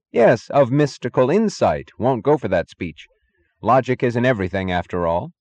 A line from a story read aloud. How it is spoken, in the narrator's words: he repeated firmly